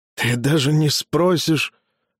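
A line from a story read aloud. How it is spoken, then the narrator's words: Hoarse breathy. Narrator (Russian): хрипло выдохнул Меламп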